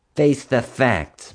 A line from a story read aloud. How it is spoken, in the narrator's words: taunted